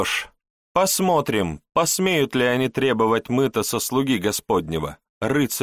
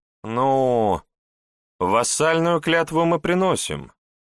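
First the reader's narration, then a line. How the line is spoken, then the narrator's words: Uncertain reply. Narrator (Russian): неуверенно ответила шевалье Изабелла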